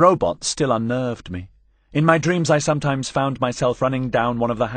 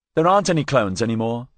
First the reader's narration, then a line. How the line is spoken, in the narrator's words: I said